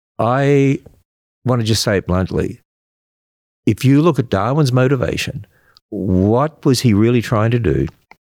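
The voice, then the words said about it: Australian accent. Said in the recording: “I'm an Australian. I hope I still have that accent. ... Yes, but, you do.”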